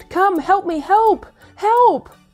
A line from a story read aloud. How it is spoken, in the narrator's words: he shouted